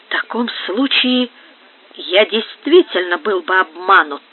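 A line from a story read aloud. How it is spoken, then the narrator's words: Through gritted teeth. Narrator (Russian): проговорил сквозь зубы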